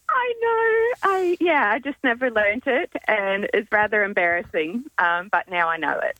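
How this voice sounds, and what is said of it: Slight American accent. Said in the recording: “I detect a little accent ... I'm originally from the States”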